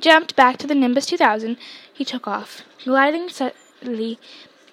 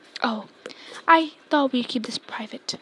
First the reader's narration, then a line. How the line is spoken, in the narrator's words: said Snape in his voice icy